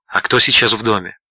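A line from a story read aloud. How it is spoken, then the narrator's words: Whispered question. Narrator (Russian): Харри шепотом спросил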